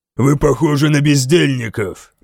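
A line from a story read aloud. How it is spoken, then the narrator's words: Growl. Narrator (Russian): прорычал Гутлок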